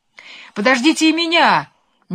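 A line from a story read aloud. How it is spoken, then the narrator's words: Sudden shout. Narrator (Russian): неожиданно закричал Лимонишка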